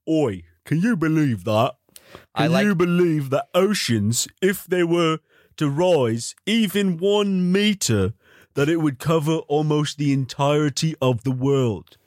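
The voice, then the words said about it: Deep British-accented voice. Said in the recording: “he has a very deep voice, British voice”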